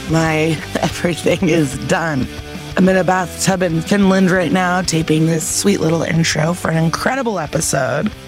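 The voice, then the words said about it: Worn-out, strained voice. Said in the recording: “My voice is done.”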